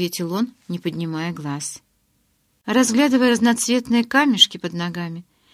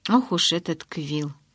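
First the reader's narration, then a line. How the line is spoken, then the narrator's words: Sighing. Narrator (Russian): вздохнул Джейк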